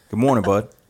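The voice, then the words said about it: Imitates another person's voice. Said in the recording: “do my Luke Hines impression ... That wasn't very good.”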